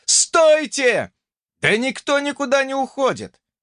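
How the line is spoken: Shouted reply. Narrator (Russian): крикнул в ответ Джонни

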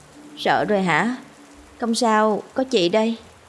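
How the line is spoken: Sleepy joking voice. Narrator (Vietnamese): nói đùa với nó bằng giọng ngái ngủ

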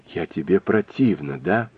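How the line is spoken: Whisper. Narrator (Russian): прошептала Нелли

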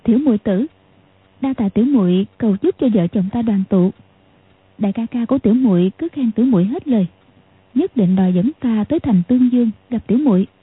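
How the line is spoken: Smiling. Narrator (Vietnamese): Tiểu Long Nữ mỉm cười nói

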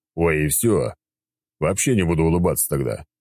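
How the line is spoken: Grumbling. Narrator (Russian): проворчал я

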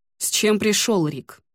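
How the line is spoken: Cold question. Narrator (Russian): холодно спросил он

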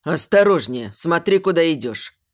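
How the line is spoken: Father's thundering bass. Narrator (Russian): Прогремел босовито мой отец

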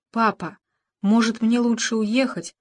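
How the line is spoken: Tearful whisper. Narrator (Russian): шепнула Саванна отцу, едва сдерживая слезы

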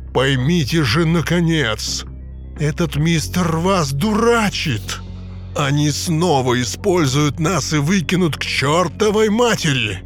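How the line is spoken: Menacing growl. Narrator (Russian): Сэм Своуп угрожающе зарычал

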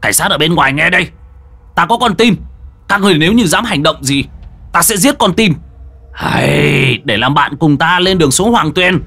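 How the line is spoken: Shouting. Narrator (Vietnamese): Hàn Tu quát lên

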